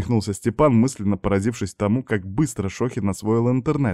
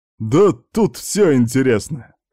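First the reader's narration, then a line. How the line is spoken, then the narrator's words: Hmphed. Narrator (Russian): хмыкнул контрразведчик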